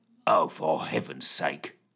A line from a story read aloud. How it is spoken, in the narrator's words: muttered Fitch